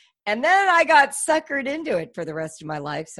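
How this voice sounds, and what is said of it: Usual voice. Nothing is said of it.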